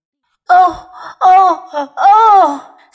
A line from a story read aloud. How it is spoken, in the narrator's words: sobbed Mr